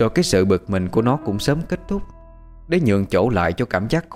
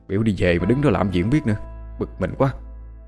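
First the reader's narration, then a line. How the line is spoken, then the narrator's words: Annoyed muttering. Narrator (Vietnamese): nó lẩm bẩm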